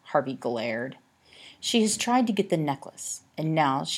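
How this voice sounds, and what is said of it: Usual voice. Nothing is said of it.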